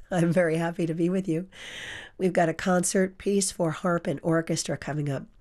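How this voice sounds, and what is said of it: Hoarse voice. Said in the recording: “Please forgive the hoarse voice.”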